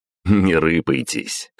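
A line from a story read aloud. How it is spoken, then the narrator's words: Smirking snort. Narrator (Russian): хмыкнул я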